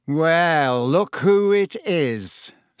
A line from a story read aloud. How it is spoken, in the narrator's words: said Malfoy in his usual lazy drawl